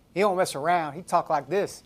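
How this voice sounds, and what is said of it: Attempted Texas accent, unconvincing. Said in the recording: “That doesn't sound like Texas. I'm from New York doing a Texas accent. ... somewhere between Texas and New York, which is what, Kentucky?”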